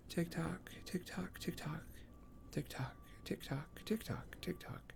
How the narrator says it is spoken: Wyrus occasionally mumbles

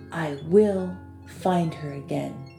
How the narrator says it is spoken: he said softly

